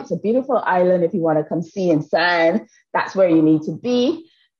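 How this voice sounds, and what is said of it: Barbadian accent. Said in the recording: “I have an accent... born, educated, and nurtured in the lovely island of Barbados”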